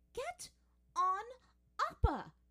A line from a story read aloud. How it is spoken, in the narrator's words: she said fiercely, straining